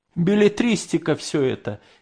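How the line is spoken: Snide. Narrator (Russian): ехидно заметил Грамотей Зырянов

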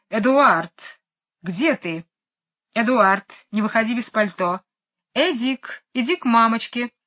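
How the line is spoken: Very loud shouting. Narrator (Russian): мисс Ларк кричит очень громким голосом

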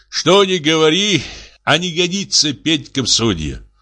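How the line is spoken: Sighing. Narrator (Russian): вздохнул он

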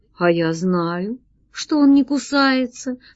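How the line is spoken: Calm reply. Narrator (Russian): спокойно ответил джин

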